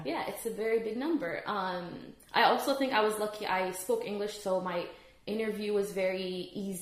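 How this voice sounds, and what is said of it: American English accent. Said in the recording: “you speak English with a very American accent”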